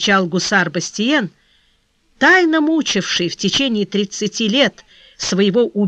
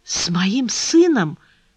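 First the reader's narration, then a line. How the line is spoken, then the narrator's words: Old man whispering. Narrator (Russian): прошептал старик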